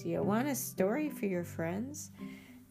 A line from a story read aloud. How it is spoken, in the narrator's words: Fila laughs